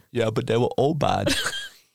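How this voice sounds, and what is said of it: Imitates another person's voice. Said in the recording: “My Arnold impression doesn't quite deserve an applause yet. I'm working on it. It'll get better.”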